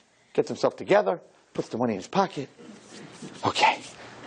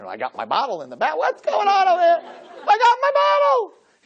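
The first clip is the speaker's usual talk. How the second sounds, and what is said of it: Screaming excitedly. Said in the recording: “He's screaming”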